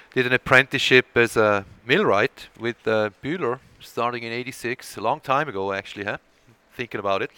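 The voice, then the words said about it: Slight Swiss accent. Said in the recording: “there is a bit of an accent there uh, when I speak, and that's uh, because I was born and raised in Switzerland”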